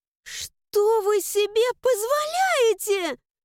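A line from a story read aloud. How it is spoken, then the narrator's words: Indignant scream. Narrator (Russian): завопила возмущенно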